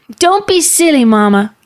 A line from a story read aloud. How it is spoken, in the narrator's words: Gid shouted back